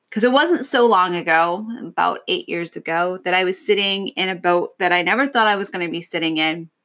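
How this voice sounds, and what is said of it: Emotional, welling-up voice. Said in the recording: “I'm welling up and I'm getting a little bit emotional here”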